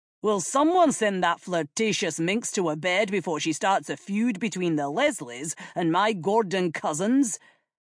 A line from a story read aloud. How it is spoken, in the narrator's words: the king snapped